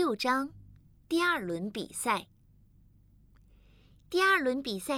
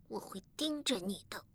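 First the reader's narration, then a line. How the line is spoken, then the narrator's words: Reluctant mutter. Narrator (Chinese): 我不情愿地嘀咕道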